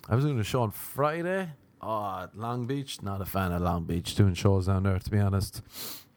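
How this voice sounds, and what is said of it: Irish accent. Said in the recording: “the girls were loving my accent ... loving that I was Irish”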